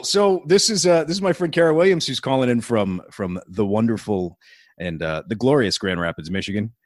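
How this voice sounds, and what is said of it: Radio DJ style speaking voice. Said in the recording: “I'm using my regular DJ voice, which has actually just turned into my regular voice ... I just sound this way all the time ... It just so happens that I sound like a fucking radio DJ.”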